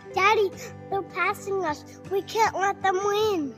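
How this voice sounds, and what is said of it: Panicky child character voice. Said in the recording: “Bubba said in a panicky voice.”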